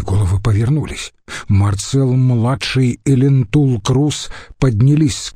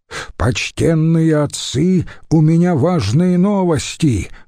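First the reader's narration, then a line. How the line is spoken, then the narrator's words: Loud shout. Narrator (Russian): громко крикнул вошедший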